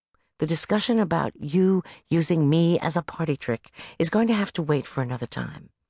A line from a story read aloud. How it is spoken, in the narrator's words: I murmured